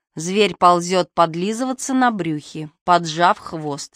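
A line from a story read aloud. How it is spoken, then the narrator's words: Plain. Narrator (Russian): сказала она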